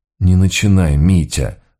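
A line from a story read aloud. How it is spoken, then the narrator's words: Sighing. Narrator (Russian): вздохнул я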